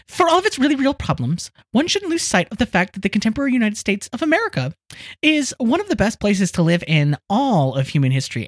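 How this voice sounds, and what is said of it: Impression of Matthew Yglesias. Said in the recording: “my Maddie Y voice”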